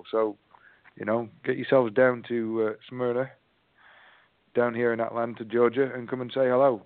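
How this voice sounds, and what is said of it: English accent. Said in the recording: “my strange English accent ... I think it's my accent”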